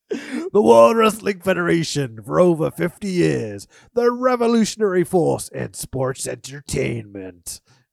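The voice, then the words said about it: Wrestling announcer voice. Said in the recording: “I tried to do an announcer voice there, and I actually hurt the back of my throat.”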